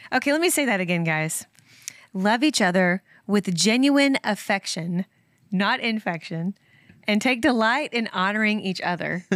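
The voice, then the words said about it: Speaks with a noticeable accent. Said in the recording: “My accent's going all over the place ... I love your accent”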